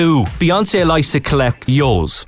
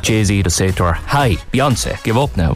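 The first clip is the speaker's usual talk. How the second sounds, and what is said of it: Rural farmer's accent. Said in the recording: “Got that farmer's accent.”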